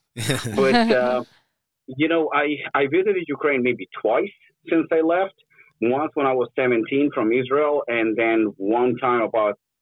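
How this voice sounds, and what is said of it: Mixed foreign accent, Russian-sounding. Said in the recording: “even my accent is so mixed with so many languages ... referred to me as Russian”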